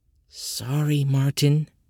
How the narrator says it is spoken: she whispered

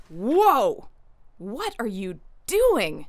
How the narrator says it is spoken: cried Frost Cricket

